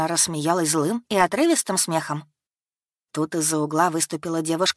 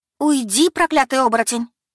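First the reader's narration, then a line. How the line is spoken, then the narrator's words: Girl exclaiming. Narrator (Russian): воскликнула девушка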